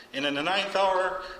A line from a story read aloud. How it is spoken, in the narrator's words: Jesus cried with a loud voice